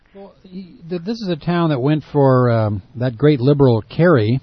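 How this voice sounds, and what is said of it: Sarcastic tone. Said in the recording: “you hear the sarcasm in my voice”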